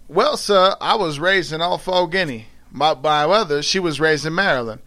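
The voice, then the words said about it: Reads aloud in a put-on accent. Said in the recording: “I'm doing my best here with the fucking, with the accent as well”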